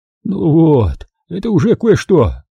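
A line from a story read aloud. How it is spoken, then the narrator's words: Exclaimed. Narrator (Russian): воскликнул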